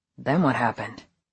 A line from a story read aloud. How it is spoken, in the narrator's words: He asked softly